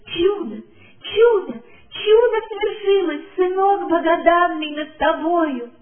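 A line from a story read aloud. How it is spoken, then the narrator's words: Loud joyful sobbing thanks. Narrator (Russian): и рыдала, и громко благодарила Бога и славила его за свершившееся чудо счастливая мать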